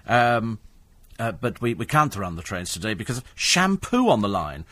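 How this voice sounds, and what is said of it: Put-on French accent. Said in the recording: “in a French accent”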